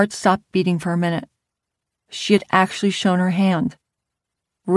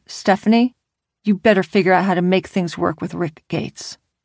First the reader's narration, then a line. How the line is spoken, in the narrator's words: She sharply replied